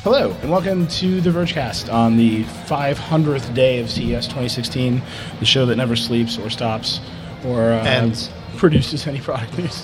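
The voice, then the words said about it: Sleepy, tired-sounding voice. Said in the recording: “I think you can hear the sleepiness in my voice.”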